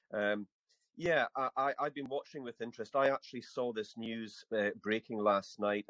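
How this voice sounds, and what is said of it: Scottish accent. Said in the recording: “I speak with a Scottish accent”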